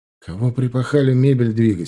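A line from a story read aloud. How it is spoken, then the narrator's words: Laughing question. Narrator (Russian): спросил я, смеясь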